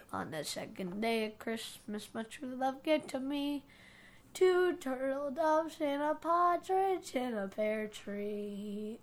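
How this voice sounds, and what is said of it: Choked-up emotional singing voice. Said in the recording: “got choked up”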